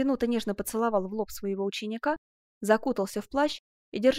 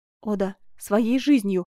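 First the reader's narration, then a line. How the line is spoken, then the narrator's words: Exclamation. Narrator (Russian): воскликнула герцогиня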